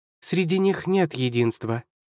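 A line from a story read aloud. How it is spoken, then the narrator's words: Calm reply, fortress. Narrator (Russian): спокойно ответила крепость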